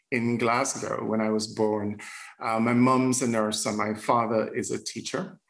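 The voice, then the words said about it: Jamaican accent with British, American influence. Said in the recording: “a root of Jamaican, but I've been here in the United Kingdom and in the US for more than half of my life... there's an evolution that you're hearing as well”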